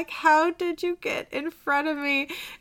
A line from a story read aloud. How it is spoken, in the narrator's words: he's laughing